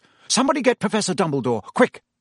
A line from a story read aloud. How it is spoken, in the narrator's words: Percy say in a suddenly sharp voice